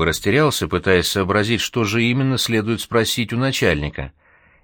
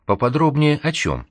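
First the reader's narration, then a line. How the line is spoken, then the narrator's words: Cheerful question. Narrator (Russian): весело спросил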